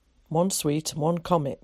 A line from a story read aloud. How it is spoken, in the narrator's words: said sharply